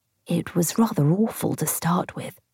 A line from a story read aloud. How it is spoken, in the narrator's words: she said in a whisper